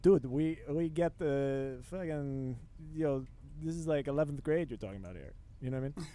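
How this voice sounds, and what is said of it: Odd put-on attempt at Dutch accent. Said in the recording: “I don't know what accent that was. That was crazy. ... Yeah, that was weird. ... I think I wanted to do Dutch”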